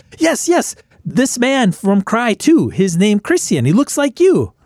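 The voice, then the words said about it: Character voice with foreign accent. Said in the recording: “the NPC has an accent, he gets the location mixed up ... he's mispronouncing the place”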